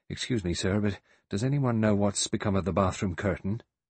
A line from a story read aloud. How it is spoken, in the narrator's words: He said nervously and at random